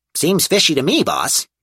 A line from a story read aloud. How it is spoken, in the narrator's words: Bob chirped